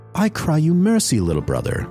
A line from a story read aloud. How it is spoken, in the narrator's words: laughed the witch